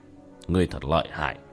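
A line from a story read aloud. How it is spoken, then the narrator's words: Muttering. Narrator (Vietnamese): Kiến Minh lẩm bẩm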